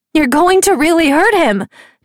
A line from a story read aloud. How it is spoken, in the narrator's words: Nicasia shouted